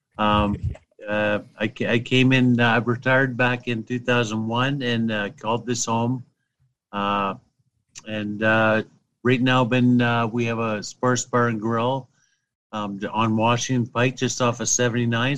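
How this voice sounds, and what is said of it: Canadian accent. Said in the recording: “I get heck about my Canadian accent”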